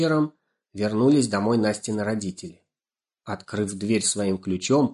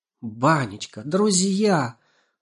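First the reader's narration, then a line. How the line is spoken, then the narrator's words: Excited. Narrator (Russian): взволнованно заговорил Лешик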